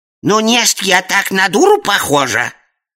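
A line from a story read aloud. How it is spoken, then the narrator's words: Indignant snort. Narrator (Russian): Возмущенно фыркнула опытная специалистка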